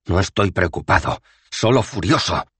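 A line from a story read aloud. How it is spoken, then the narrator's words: Snapped. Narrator (Spanish): le espetó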